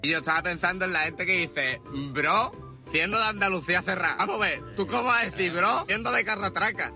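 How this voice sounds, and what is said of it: Andalusian Spanish accent. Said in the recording (Spanish): “Él es andaluz, como vais a notar enseguida por el acento”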